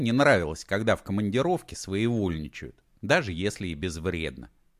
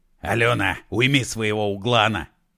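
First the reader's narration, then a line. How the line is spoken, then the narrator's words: Barked. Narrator (Russian): рявкнул Егор Алексеевич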